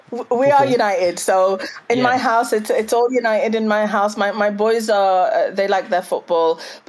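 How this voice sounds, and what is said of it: Manchester accent. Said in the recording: “the accent's from Manchester”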